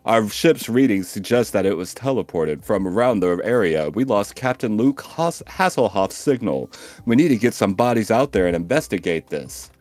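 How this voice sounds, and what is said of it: Deep, sexy male voice. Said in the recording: “in a deep, sexy voice”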